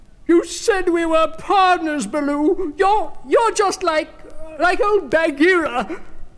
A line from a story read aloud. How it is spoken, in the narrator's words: he cried